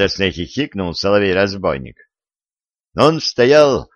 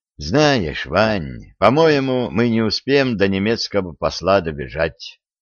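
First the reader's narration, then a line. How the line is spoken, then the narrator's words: Resigned sigh. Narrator (Russian): обреченно вздохнул Виталик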